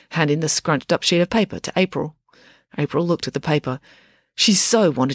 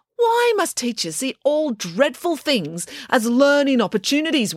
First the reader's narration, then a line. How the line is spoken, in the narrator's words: wailed April